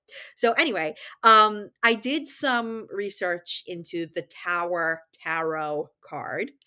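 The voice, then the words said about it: New York accent. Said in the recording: “in my New York accent, they do”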